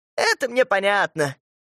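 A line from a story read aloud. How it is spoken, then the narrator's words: Laughing mother. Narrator (Russian): мамаша засмеялась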